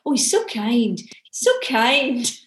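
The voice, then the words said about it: Imitates mixed Scottish-Northern Irish accent. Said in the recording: “he's got this kind of mixed up accent because he was raised in Scotland, lived in Northern Ireland ... my terrible Alan Scott impression.”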